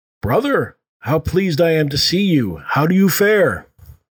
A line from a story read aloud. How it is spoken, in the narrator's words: Tiago called out